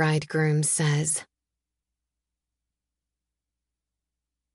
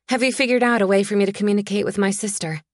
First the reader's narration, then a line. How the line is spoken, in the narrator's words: I demand, my voice too loud in that stillness